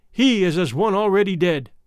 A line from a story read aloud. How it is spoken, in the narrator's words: proud ones cried